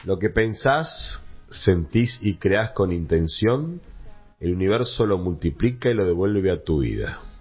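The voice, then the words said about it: Radio announcer voice. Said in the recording (Spanish): “con voz de locutor”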